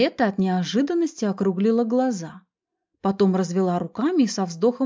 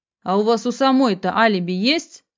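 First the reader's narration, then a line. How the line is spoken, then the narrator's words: Unfriendly, through gritted teeth. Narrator (Russian): Недружелюбно процедил Барсуков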